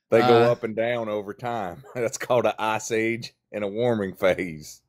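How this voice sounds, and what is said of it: Noticeable regional accent. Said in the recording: “I can tell by your accent”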